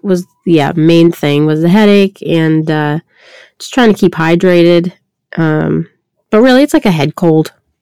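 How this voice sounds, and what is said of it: Raspy voice. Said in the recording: “my voice is a little raspy, got the COVID ... This raspy voice”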